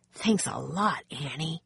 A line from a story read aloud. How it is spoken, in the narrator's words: Jack whispered